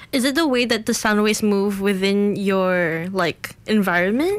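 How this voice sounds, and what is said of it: Smooth British-American Singaporean accent. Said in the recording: “you have a lovely voice ... tinge of British-American Singaporean accent, but it comes across as smooth”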